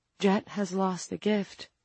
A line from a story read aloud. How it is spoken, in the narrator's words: Franny said sadly